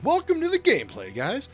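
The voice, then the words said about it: Fake, over-enthusiastic happy voice. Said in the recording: “gotta have ... more ... enthusiasm. ... Happy. ... Look how happy and fake I am”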